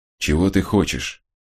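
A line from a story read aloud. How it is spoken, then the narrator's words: Quiet question. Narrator (Russian): негромко спросил он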